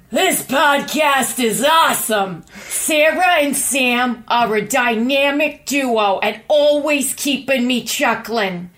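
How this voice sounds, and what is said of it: Imitates another person's voice. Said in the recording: “I will do an impression of what I think Dion's voice might sound like”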